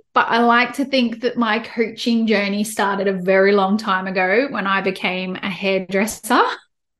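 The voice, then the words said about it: Australian accent. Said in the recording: “as you can tell from my accent, I'm in Australia”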